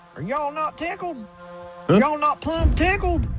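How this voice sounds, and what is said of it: Put-on Southern American accent. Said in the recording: “What if he was doing a Southern accent?”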